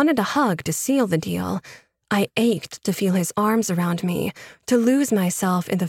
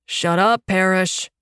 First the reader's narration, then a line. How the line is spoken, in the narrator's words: Ronan intoned